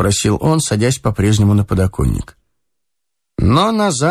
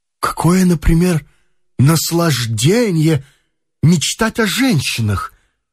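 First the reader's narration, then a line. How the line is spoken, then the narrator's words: Exclaiming. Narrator (Russian): воскликнул он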